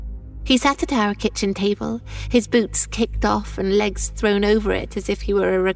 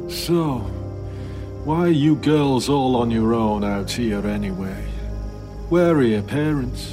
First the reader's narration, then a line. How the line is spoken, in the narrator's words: with drooping eyes and slightly slurred speech that he asked me